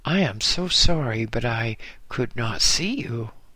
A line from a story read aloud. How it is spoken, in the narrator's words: exclaimed